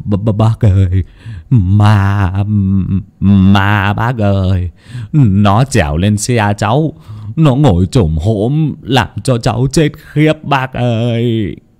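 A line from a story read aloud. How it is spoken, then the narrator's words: Shaken stammering. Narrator (Vietnamese): hoàn hồn mà lắp bắp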